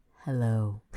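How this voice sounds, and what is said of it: Sultry, deep radio-announcer voice. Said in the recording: “super sexy radio voice”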